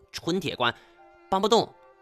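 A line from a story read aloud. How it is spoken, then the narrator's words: Shout. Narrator (Chinese): 他 冲我喊道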